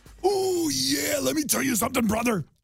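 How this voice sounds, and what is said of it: Macho Man Randy Savage impression. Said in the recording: “give me a good impression of him ... Oh, that was a little bit of a Hulk ... Was not a good impression.”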